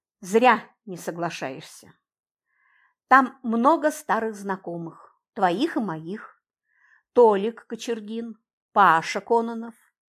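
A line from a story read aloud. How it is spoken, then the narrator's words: Gently insistent. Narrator (Russian): мягко настаивал он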